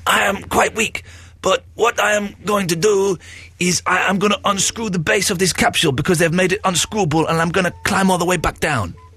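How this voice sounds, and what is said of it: Weird put-on Brazilian accent. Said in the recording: “Brazilian ... your weird accent”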